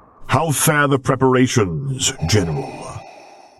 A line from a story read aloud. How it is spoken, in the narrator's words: Lord Vader rumbled